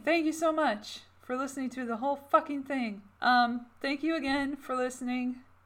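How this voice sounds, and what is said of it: Worn-out, strained voice. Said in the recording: “My voice is dead.”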